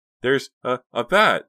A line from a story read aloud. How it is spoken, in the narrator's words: Dina cried in horror